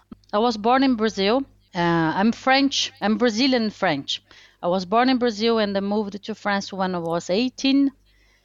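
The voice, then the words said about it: Charming foreign accent. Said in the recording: “very charming accent ... you come from somewhere else”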